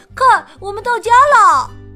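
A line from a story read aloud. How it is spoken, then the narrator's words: Shout. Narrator (Chinese): 弗洛格发出一声叫喊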